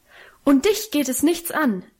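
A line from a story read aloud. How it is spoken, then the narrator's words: Frantic, beside-herself shout. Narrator (German): rief sie außer sich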